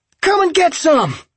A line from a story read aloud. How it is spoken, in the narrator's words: Holly yelled